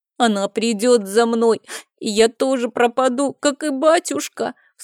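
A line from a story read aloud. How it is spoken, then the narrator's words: Sobbing. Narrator (Russian): всхлипнул Мишель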